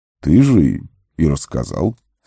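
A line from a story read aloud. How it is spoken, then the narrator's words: Calm. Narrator (Russian): спокойно произнес маг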